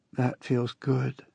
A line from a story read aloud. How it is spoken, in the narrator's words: she whispered in my ear